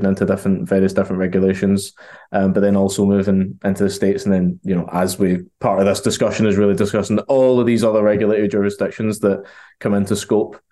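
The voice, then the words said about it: Glaswegian Scottish accent. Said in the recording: “I'm from Glasgow, so that's the accent.”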